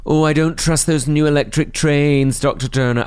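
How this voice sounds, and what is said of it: Flirty put-on Scottish Morningside accent. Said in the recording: “Why do you do it in such a flirty way? ... that's the only type of Scottish accent I can do, a slightly, slightly overtly sexualised Morningside housewife ... Which is not really her accent at all ... Such an insulting accent.”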